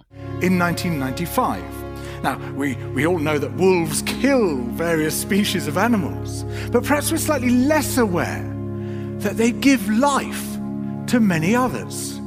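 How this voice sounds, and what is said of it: British accent. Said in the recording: “a narrator with a British accent”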